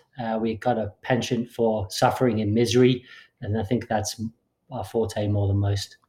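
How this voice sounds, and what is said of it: English accent. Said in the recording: “I presume that's an English accent”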